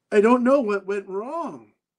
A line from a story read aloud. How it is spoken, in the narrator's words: Ramon said in between deep, heaving sobs